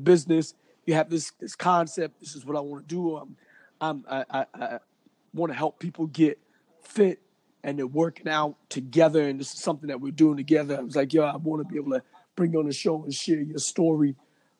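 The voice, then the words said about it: Strained, fading voice. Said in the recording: “I can't even talk, but I can talk, but I'm losing my voice, man.”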